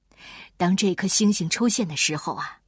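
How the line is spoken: Several voices, wistful sigh. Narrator (Chinese): 贝里奥、卡门和卡梅利多都感叹道

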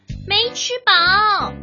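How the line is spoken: Shout. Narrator (Chinese): 毛尔东吃完饭喊道

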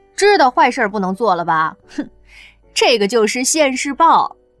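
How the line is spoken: Laughing. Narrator (Chinese): 刘亚楠当下笑了出来，对着里面的羌然说道

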